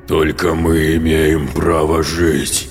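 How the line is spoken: Menacing growl. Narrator (Russian): угрожающе прорычал голос существа в его голове

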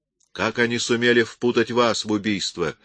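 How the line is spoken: Sharp question. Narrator (Russian): резко спросил Крид

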